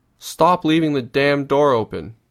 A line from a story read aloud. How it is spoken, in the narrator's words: Grandma screams across the yard